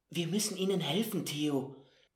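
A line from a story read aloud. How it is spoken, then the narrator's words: Whisper. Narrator (German): flüsterte er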